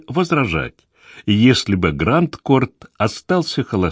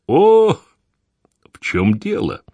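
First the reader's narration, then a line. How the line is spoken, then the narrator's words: Impatient question. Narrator (Russian): нетерпеливо спросил Лаш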